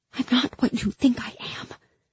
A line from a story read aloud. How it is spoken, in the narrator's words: I whispered desperately